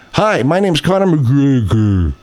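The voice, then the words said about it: Slowed-down imitation of another person's voice. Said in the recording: “you did a very good impression of McGregor. Now, why did you slow it down like that?”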